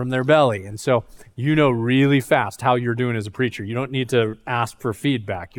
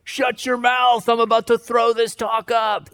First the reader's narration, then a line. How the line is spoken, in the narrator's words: they'll yell